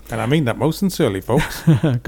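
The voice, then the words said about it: Imitates another person's voice. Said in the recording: “Good impersonation.”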